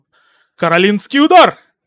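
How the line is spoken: Shouted. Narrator (Russian): крикнул всемогущий

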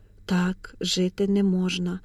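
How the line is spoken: Whisper. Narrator (Ukrainian): прошепотіла

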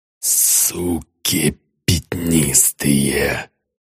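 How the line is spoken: General's hateful rasp. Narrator (Russian): с ненавистью прохрипел генерал

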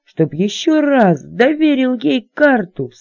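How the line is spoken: Weary groan. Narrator (Russian): в сотый раз простонал капитан

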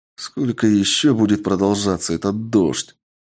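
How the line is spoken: Weary. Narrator (Russian): устало сказал я

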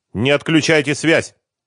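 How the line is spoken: Stern request. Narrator (Russian): строгим тоном попросил адвокат

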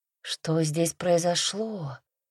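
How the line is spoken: Mutter to no one. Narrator (Russian): пробормотала я, особо никому не обращаясь

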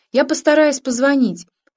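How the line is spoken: Shouting while moving. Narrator (Russian): крикнула она на ходу

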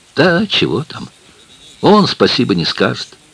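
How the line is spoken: Envious exclamation. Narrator (Russian): воскликнула жена Левака, с глубокой завистью

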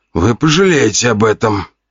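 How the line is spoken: Moaning man. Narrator (Russian): простонал мужчина

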